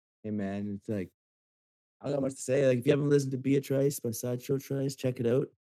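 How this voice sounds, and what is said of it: Canadian accent. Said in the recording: “I can hear my Canadian accent in my voice and in my microphone right now”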